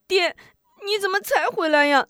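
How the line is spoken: Sobbing. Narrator (Chinese): 抽泣起来

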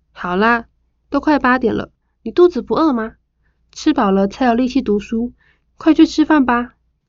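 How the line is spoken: Warm, smiling. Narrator (Chinese): 老妈笑得灿烂

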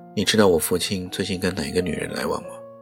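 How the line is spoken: Wry, blunt question. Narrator (Chinese): 令瑶又苦笑起来，只好单刀直入地问

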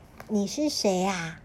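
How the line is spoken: Plain. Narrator (Chinese): 小梅一问

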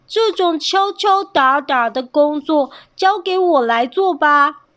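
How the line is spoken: Loud commanding. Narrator (Chinese): 征求也大声指挥着

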